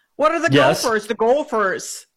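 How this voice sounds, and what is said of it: Exaggerated Minnesota accent. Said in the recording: “The Minnesota accent.”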